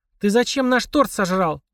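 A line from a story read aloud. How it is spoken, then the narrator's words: Hissing. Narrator (Russian): зашипела Полина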